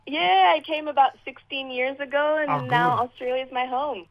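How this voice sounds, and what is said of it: Mixed Zimbabwean, Canadian, German accent. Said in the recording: “You have an accent there. ... I was born in Zimbabwe, but I grew up in Canada and Germany, so it's a little bit of a mix where this accent comes from.”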